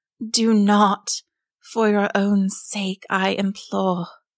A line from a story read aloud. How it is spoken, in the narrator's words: the flounder gasped